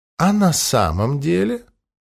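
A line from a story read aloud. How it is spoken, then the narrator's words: Quiet, after a pause. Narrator (Russian): Агата помолчала, после чего тихо спросила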